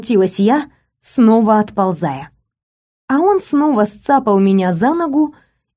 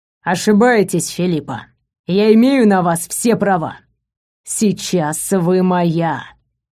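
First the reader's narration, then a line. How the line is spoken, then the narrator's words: Growled. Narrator (Russian): рыкнул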